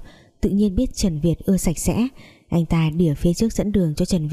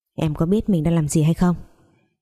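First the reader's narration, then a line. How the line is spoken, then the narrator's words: Cold speech. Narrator (Vietnamese): lạnh lùng nói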